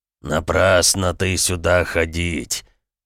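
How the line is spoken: Pleased deep giant's bass. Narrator (Russian): Довольно пробасил третий великан

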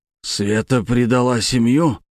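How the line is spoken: Hoarse. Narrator (Russian): хрипло сказал Подольский

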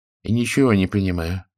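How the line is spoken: Timid interjection. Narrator (Russian): робко вмешался господин Рахмани

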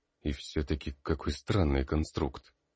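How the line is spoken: Mumbling. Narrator (Russian): бормотал Калистратис

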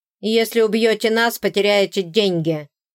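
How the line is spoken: Barking. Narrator (Russian): рявкнул капитан

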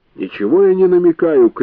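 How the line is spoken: Shouted. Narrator (Russian): крикнул Хатчмейер

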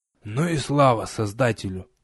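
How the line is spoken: Relieved exhale. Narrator (Russian): облегченно выдохнул я

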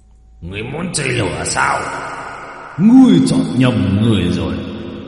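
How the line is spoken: Roar. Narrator (Vietnamese): Dao long gầm lên

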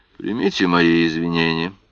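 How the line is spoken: Weary tone. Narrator (Russian): произнес он утомленным тоном

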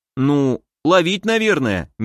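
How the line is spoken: Uncertain statement. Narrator (Russian): неуверенно заявил Кайто

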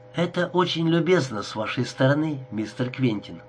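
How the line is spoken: Plain. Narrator (Russian): сказала она

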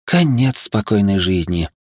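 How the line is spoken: Aunt's heavy sigh. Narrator (Russian): тяжело вздохнула тетя

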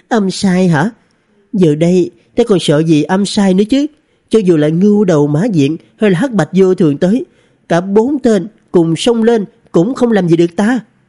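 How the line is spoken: Giggling. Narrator (Vietnamese): Thạch Cơ nương nương cười khúc khích

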